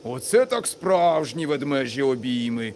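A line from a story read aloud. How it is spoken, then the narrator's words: Laughing. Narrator (Ukrainian): засміявся містер Тонтон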